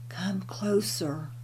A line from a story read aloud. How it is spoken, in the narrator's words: weakly whispered